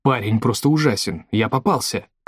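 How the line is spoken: Muffled mumble. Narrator (Russian): Прижавшись лицом к груди волка, он пробормотал

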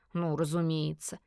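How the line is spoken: Dry snort. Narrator (Russian): хмыкнул полисмак

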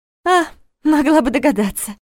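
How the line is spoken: Breathless exhale. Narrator (Russian): выдохнула

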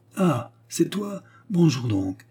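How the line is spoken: Ironic exclamation. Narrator (French): s'écria le bonhomme ironiquement

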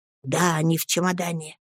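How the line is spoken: Barely audible. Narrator (Russian): еле слышно подтверждает Пиготи

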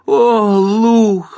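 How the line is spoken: Sharp cry. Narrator (Russian): вскрикнул Гарри Дулин

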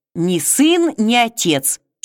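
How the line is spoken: Slightly irritated interruption. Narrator (Russian): чуть раздраженно перебил его Невский

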